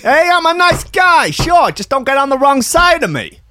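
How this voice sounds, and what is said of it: Put-on New Jersey accent. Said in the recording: “What is that accent? ... It's a kind of weird. I think it's New Jersey.”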